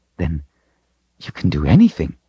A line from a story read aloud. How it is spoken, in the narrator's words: Richard whispered